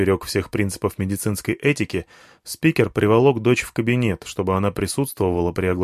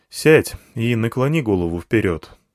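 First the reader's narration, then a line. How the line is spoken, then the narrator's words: Sigh. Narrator (Russian): вздохнул я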